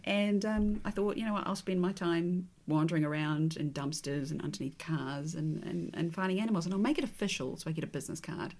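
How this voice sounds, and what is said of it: English accent, fast speech. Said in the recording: “I talk really fast ... I had an English accent, which apparently I still have.”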